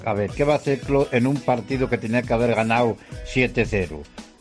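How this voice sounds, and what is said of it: Regional Spanish accent. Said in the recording (Spanish): “No sé si era de mi pueblo este hombre. Tenía acento, ¿eh? De estar por lo menos cerca.”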